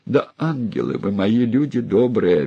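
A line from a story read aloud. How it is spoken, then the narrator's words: Mother pleading. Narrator (Russian): опять взмолилась мать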